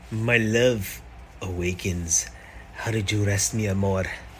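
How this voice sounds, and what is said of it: Puerto Rican accent, soft romantic. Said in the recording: “a handsome man with a Puerto Rican accent”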